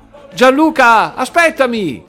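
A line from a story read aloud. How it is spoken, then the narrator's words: Shout. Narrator (Italian): gridò il titolare della rinomata profumeria Le Essenze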